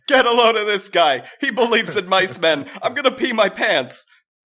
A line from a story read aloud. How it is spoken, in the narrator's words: Someone yelled